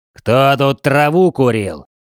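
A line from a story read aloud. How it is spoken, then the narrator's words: Hoarse, menacing, loud. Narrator (Russian): Сипя горлом, но все же грозно и громко, задал общий вопрос майор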